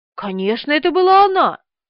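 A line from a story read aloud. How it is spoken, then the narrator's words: Exclaiming, after blowing nose. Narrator (Russian): воскликнула тетя Муся, высморкавшись в платок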